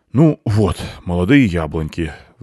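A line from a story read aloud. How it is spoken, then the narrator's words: Exasperated sigh. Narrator (Russian): вздохнув от его непонятливости, сказал бобер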